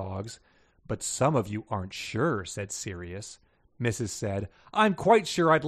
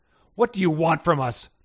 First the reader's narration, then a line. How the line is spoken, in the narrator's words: Pongo growled